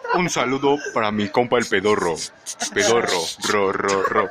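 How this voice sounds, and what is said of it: Radio announcer voice. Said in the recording (Spanish): “tienes voz de locutor ... es que es el efecto”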